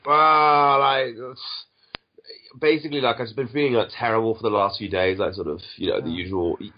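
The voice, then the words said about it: Sounds ill, flu-like voice. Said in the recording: “You sound a bit ill. ... sort of bad flu”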